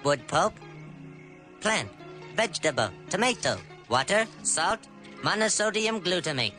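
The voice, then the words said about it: Robotic voice. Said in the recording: “talking like a robot”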